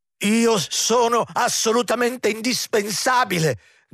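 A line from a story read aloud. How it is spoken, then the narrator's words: Steward shouting. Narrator (Italian): gridò l'intendente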